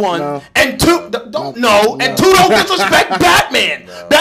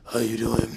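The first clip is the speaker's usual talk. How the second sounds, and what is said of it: Batman character voice. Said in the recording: “Batman talks like this.”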